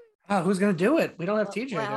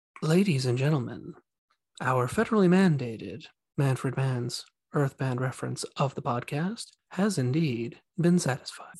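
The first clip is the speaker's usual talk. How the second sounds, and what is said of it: NPR radio announcer voice. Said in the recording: “this is my NPR voice.”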